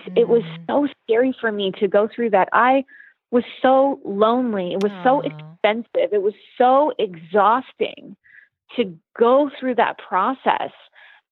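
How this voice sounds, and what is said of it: Emotional, choked-up voice. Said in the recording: “I'm getting emotional just saying this”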